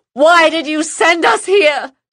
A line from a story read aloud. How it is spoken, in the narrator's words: she screamed